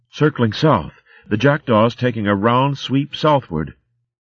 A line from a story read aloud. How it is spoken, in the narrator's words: breathless and disheveled, she shouted